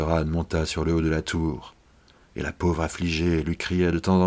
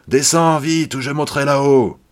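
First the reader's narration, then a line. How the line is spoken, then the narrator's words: Shouting with full force. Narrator (French): la Barbe Bleue criait de toutes ses forces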